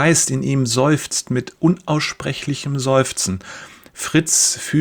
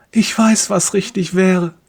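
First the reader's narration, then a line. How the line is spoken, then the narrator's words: Silent plea. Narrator (German): fleht stumm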